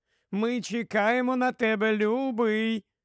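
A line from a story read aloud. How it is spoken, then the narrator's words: Calling out after him. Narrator (Ukrainian): вигукнула вслід йому одна із жінок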